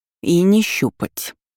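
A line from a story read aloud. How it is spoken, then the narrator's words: Through gritted teeth. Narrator (Russian): сквозь зубы произнесла ее соперница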